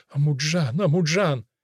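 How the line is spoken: Rumbling and muttering. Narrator (Russian): Шамхорец урчал, а Дильфирус бормотал

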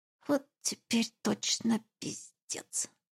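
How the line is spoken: Muttering. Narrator (Russian): пробормотала

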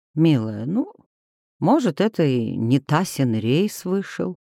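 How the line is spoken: Gentle suggestion. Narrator (Russian): мягко предположил супруг

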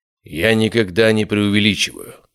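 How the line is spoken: Cold. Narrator (Russian): сказал он холодно

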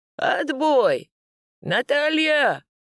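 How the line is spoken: Barked shout. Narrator (Russian): гаркнул

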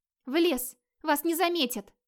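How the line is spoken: Squeak. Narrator (Russian): пискнула невидимая Грюла

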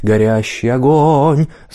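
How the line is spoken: Sweet alto voice. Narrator (Russian): своим сладким голосом альтом

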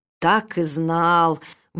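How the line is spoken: Wailed. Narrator (Russian): взвыл Фонардин

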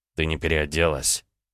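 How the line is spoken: Barely audible. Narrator (Russian): Тихо, на грани слышимости, произнес он

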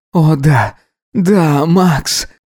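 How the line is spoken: Moaning. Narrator (Russian): стонал он

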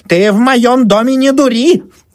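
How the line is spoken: Shrill squeal. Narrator (Russian): Взвизгнула Анфиса Павловна

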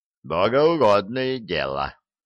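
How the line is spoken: Gnome's snort. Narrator (Russian): хмыкнул гном

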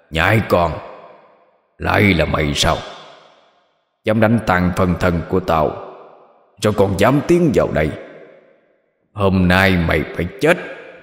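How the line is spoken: Growling. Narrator (Vietnamese): Nó gầm gừ nói

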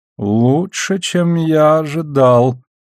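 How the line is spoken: Respectful drawl. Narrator (Russian): не без уважения протянул Шет

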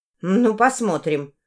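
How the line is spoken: Cold. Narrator (Russian): холодно произнесла она

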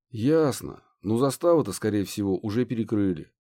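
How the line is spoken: Sighing. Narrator (Russian): вздохнул Стеча

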